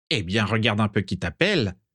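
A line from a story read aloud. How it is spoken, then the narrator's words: Sneering. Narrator (French): ricana Lazare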